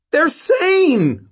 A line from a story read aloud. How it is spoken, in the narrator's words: Mort shouted back